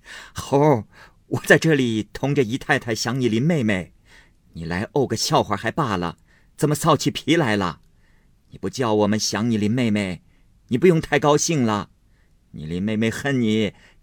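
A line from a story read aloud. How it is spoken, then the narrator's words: Laughing. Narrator (Chinese): 贾母笑道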